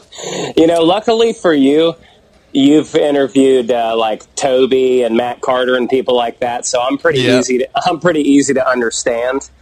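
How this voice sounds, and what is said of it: Country twang accent. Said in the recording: “I hear a little bit of the twang there in your voice ... I definitely have that twang”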